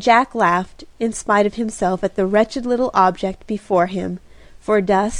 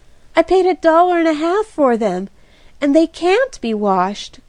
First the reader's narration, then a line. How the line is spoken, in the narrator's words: groaned Kitty